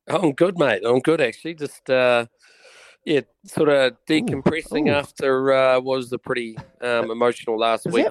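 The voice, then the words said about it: Croaky, hoarse voice. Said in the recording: “Is that a bit of a croaky voice? ... Not a great radio voice, is it?”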